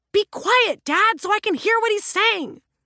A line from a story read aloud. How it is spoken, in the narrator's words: the younger officer shouted at the older police officer